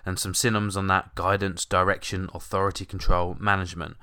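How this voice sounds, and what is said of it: Croaky, hoarse voice. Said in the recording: “I'm a bit croaky this morning as well, actually. I've had a bit of a cold ... my voice might sound a little bit different”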